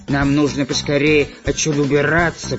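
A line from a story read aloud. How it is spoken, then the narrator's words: Grumbled. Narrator (Russian): проворчал длинноносый разбойник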